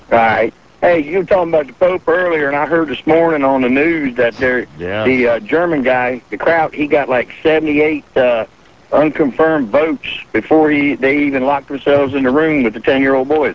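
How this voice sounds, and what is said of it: Distracting strong accent. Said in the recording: “your accent totally... A little distracting.”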